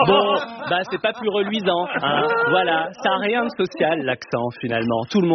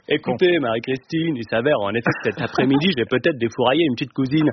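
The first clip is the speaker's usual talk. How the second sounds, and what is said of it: Posh Versailles accent, plummy mouth. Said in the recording (French): “Puis à Versailles aussi, ils ont un accent. D'ailleurs, avec leurs patates chaudes de consanguin dans la bouche.”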